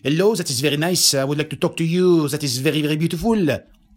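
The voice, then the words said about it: Put-on thick French accent. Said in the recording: “a French person who is speaking with me with a very thick French accent”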